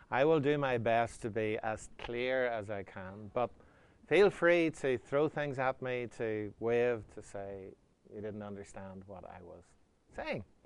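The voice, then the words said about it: Northern Irish accent. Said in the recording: “Apparently, I have an accent... I'm a Northern Irishman, in case you're wondering where the accent comes from.”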